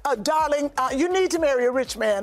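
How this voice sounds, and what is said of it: Posh period-drama style accent. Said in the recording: “Why I gave her that accent. But that's how she talks. ... where's she from? Bridgerton?”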